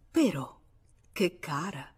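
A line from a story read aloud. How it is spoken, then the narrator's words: Pleased murmur. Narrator (Italian): Duroy mormorò fregandosi le mani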